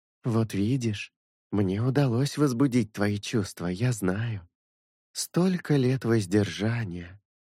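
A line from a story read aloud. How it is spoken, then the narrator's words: Sigh. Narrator (Russian): Вздохнула Киприда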